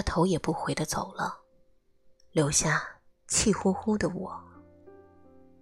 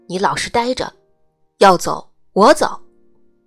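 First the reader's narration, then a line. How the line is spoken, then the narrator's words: Loud scolding. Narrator (Chinese): 他大声呵斥我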